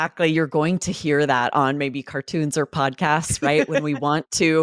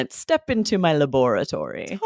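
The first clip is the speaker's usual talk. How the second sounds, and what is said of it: Menacing put-on British accent. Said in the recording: “have our voice sound a little bit menacing ... We might say it with that British accent.”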